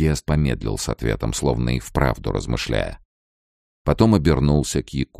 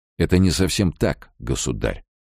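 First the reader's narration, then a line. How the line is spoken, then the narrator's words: Calm reply. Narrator (Russian): спокойно отвечал Руй-Диас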